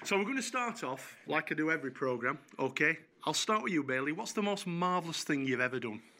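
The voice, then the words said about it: Yorkshire accent. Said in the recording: “my Yorkshire accent”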